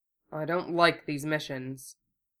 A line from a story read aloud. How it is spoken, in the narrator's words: he grumbled